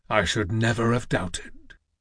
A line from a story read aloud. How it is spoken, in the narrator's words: murmured